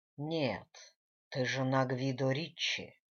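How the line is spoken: Through gritted teeth. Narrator (Russian): процедил сквозь зубы Фабрицио

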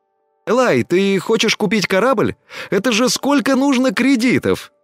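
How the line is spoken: Surprised exclamation. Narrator (Russian): Удивленно воскликнул Тина

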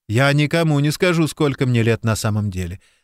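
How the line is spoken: Laughing. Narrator (Russian): рассмеялась Тайрин

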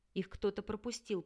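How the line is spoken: Muttering. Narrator (Russian): пробормотал Рин

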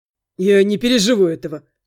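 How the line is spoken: Wry snort. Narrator (Russian): хмыкнул Андрей

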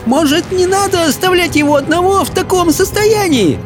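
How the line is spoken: Trembling shout. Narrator (Russian): дрожащим голосом прокричала Софи

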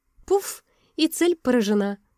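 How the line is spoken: Laughing foolishly, easing tension. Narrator (Russian): Расхохоталась, как дурочка, чтобы снять воцарившееся напряжение

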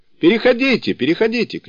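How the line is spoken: Shouting. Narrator (Russian): кричал он

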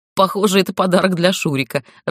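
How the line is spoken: Laughing. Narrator (Russian): рассмеялась Светка

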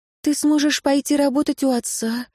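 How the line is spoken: Timid woman. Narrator (Russian): робко заметила она

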